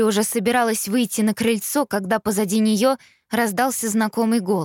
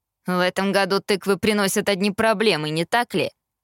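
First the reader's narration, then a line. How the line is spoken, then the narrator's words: Snide remark. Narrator (Russian): ехидно заметил Эштон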